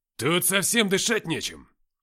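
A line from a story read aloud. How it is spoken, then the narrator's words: Shouting through cupped hands. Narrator (Russian): Уфимцев сложил руки рупором и крикнул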